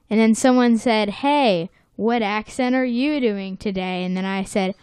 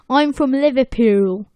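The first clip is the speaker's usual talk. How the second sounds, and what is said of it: Weak put-on Liverpool accent. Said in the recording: “that's awful ... that wasn't very good ... I did a better accent at school ... It was not very good at all”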